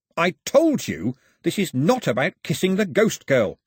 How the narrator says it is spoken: snapped Mao

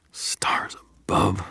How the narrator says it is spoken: I muttered

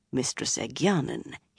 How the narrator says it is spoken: he murmured

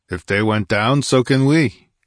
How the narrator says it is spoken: grunted Conan

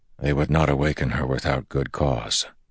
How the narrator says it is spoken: Rand said softly

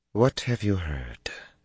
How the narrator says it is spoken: she asked quietly

